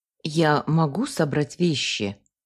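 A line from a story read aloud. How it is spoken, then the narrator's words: Dejected question. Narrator (Russian): уныло спросила я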